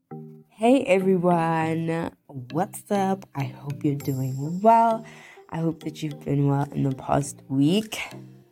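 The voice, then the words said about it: Snuffly, congested voice. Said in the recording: “my voice is gonna sound snuffly ... half cold”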